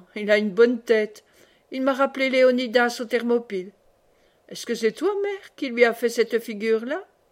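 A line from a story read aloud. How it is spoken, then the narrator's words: Cheerful. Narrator (French): Et gaiement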